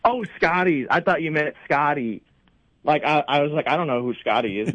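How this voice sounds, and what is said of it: Speaks with a drawl. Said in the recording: “That's where the drawl's coming from. ... He gets that drawl. ... he's got like a drawl.”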